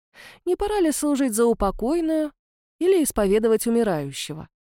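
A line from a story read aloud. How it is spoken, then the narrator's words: Insinuating reply. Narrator (Russian): Вкрадчиво ответил месье Готфруа и спрашивал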